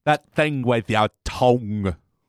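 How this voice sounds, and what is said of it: Vague Scottish-ish accent imitation. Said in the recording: “She really pronounced it like tongs, like barbecue tongs ... that vague Scottishy-ish kind of accent”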